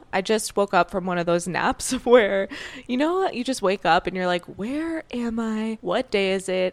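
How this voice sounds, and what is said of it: Groggy, just-woken-up voice. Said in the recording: “my voice sounds a little groggy right now”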